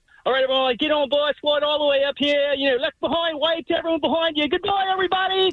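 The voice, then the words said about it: Put-on Australian accent. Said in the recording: “I would just start an Australian accent ... Yeah, pretty good. ... That's pretty good.”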